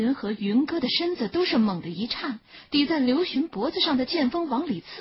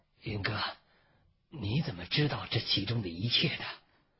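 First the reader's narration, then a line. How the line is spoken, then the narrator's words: Hoarse question. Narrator (Chinese): 只能嘶哑着问云歌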